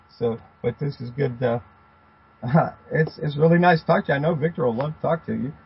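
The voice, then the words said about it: Hoarse, fading voice. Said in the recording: “my voice is going out”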